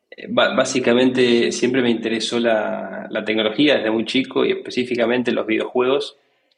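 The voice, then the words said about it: Non-Mexican Spanish accent. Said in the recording (Spanish): “ya se notaba por mi acento que no soy de México”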